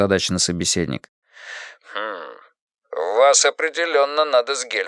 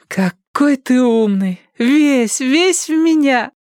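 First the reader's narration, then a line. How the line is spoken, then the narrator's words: Loud joyful, doting cry. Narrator (Russian): громкий боевой клич, радостно, приговаривая умильно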